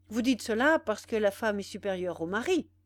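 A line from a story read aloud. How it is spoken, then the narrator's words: Curt. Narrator (French): dit-il d'un ton sec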